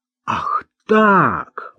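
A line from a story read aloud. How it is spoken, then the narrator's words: Exclamation. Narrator (Russian): воскликнул Марк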